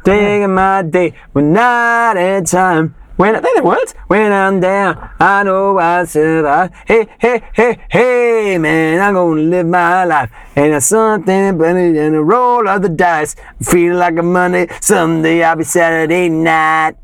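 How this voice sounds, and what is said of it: Sings imitating another singer's voice. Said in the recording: “that's incredibly accurate. Impersonation. ... It had moments of John in it”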